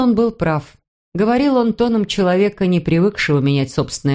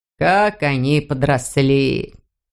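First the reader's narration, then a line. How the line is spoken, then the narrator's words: Surprised mutter. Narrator (Russian): пробормотал он удивленно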